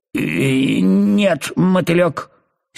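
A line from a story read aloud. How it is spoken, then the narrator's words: Angry caterpillar. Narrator (Russian): сердито ответила гусеница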